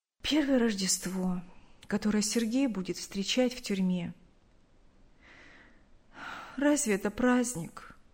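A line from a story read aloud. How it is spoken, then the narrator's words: Sad. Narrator (Russian): Она грустно сказала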